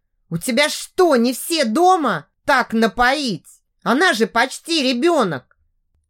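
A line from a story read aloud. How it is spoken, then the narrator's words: Shouting like displeased chaperone. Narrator (Russian): голосом недовольной дуэньи закричал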